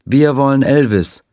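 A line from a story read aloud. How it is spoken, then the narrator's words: Crowd chanting in unison. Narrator (German): die Menge rief im Chor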